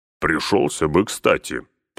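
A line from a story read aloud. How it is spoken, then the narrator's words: Grumbling. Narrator (Russian): пробурчал Гимли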